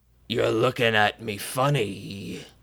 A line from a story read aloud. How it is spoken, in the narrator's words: he slurred, his threatening tone